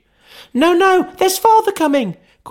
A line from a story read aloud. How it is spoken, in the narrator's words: cried the 2 young Cratchits